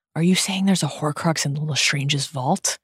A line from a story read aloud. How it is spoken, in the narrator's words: she whispers